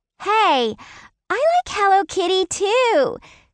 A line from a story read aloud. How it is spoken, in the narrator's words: she squealed in delight